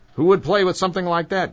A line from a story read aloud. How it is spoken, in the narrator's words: Granny snapped